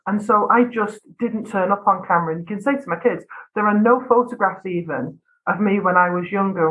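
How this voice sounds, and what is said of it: Northwest English accent, flat vowels. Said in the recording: “I come from Northwest England I have very flat vowels in my accent”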